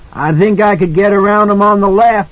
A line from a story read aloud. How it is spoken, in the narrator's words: Halloran shouted back